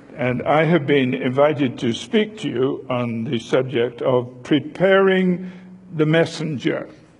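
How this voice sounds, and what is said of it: British accent. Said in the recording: “by the way, this is British humor ... now that you're tuned into my accent”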